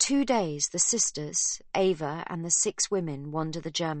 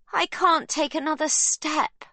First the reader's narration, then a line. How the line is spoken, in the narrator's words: Livy wails